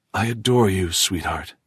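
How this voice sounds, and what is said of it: Husky, close, intimate voice. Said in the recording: “In a husky voice, very close to her, his ear”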